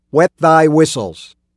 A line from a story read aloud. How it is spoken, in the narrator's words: shouted